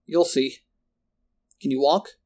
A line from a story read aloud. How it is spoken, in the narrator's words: A little unsteadily, Marco answered